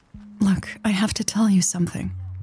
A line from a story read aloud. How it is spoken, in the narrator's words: she said quietly